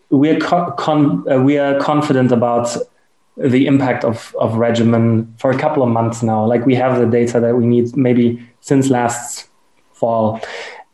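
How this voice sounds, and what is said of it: German accent. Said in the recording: “you hear my German accent.”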